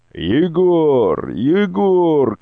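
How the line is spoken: Shouted. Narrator (Russian): кричала она

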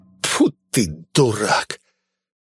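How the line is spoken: Hissing. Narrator (Russian): Он зашипел

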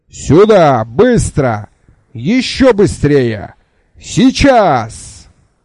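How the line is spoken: Extremely loud yelling. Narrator (Russian): Джуфин орал так неправдоподобно громко

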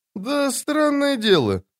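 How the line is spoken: Thoughtful. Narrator (Russian): задумчиво проговорил Мурильо

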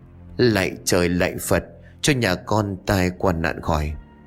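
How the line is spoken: Fearful murmured prayer. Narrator (Vietnamese): Tay của bà bắt đầu run rẩy, miệng của bà bẩm bẩm

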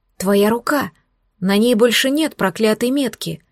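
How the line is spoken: Exclamation. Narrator (Russian): Воскликнул Вудвард

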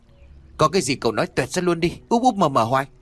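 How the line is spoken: Irritated snapping. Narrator (Vietnamese): Khuôn lúc này liền gắt

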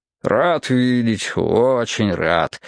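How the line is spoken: Muttered. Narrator (Russian): бормотал он

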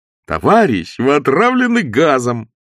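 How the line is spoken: Joyful repetition. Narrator (Russian): радостно повторил санитар

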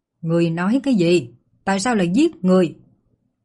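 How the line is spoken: Angry shout. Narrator (Vietnamese): Yến Xích Hà nhất thời giận dữ quát

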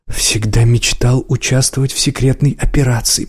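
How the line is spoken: Whisper. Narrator (Russian): прошептал Гастро

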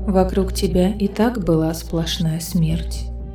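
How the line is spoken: Whisper. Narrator (Russian): прошептала Элиана

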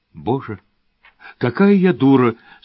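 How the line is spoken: Repeating through sobs. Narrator (Russian): сквозь рыдание твердила моя возлюбленная секретарша

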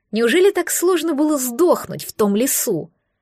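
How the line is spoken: Furious hiss. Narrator (Russian): Прошипела она, метая молнии из глаз

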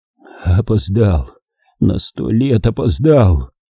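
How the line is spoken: Breathless. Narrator (Russian): выдохнул он

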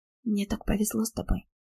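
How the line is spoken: Whispered. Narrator (Russian): прошептала

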